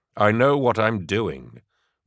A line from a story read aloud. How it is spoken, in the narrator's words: Gaunt had replied curtly